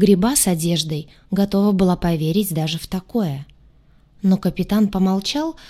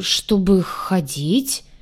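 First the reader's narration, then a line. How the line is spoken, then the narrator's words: Forced, embarrassed. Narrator (Russian): чувствуя себя уж совсем откровенной дурой, выдавила я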